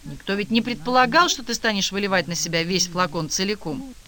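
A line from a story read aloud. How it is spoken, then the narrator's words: Quick. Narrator (Russian): быстро сказала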